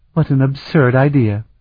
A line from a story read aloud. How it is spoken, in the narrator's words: she exclaimed